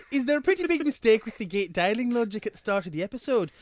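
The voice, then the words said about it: Bad put-on Irish accent. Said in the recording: “sorry in advance for the Irish accent ... terrible impression ... I'm drowning a cat. That's what it sounded like to me.”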